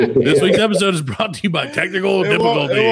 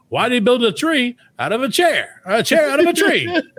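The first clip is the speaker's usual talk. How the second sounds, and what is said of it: Put-on radio announcer voice. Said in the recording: “do my radio voice”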